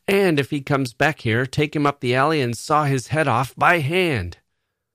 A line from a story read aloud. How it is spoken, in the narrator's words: Bill was shouting to Chuck